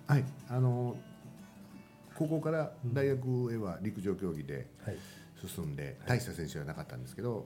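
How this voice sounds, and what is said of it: Kansai dialect Japanese accent. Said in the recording (Japanese): “もう関西弁ですね ... 関西弁抜けないです”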